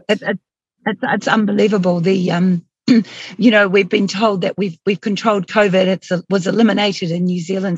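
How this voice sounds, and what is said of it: Hoarse, strained voice. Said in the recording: “I'm losing my voice because I've been speaking so much”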